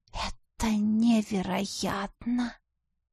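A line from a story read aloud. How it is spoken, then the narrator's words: Tearful whisper. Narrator (Russian): прошептала я, чувствуя на глазах непрошенную влагу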